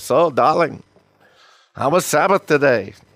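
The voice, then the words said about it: Weak impression of a Jewish wife. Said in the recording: “my bad impression of a Jewish wife”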